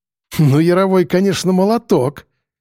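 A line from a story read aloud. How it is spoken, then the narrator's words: Amused snort. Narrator (Russian): хмыкнул док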